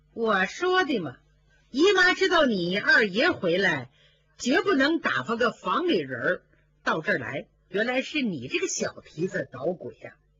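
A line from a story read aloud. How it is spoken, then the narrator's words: Laughing. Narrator (Chinese): 凤姐一听笑了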